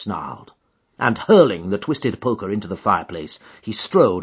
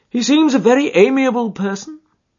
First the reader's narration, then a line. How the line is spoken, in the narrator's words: said Holmes, laughing